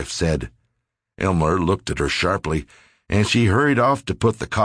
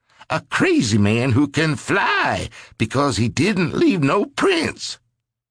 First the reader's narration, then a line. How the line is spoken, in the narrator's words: his voice rose